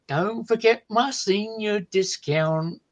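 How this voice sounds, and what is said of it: Country twang, sung. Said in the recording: “It's a country song. And as you can tell, I do the twang very well. ... You do a very good job at that.”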